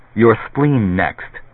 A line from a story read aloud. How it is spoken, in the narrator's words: Barris said